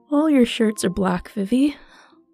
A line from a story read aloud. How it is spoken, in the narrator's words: yawned